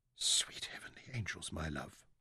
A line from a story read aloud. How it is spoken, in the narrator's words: Mansair whispered